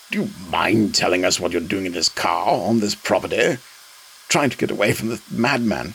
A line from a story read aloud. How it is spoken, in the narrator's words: groaned